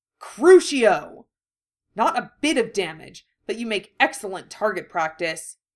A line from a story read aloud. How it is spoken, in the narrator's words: Harry sneered